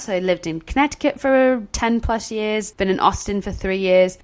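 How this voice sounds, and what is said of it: Mixed British and Southern US accent. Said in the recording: “it sounds British, but then you say something's really Southern ... my accent really is a bit of a mix of, of all three of those”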